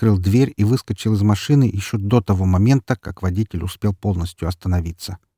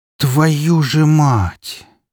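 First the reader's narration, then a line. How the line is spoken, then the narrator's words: Near groan. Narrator (Russian): почти простонал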